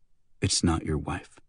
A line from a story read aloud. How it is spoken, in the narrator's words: Santos whispered